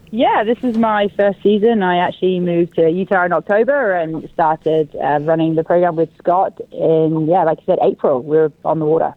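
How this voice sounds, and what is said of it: British accent. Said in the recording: “as you can tell from my accent, from the UK”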